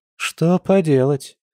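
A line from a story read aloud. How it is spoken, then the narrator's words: Slightly sad sigh. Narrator (Russian): немного грустно вздохнула Маша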